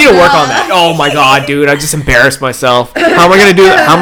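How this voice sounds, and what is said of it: Usual voice. Nothing is said of it.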